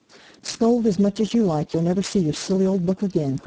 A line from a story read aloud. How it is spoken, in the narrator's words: cried Amy, getting excited in her turn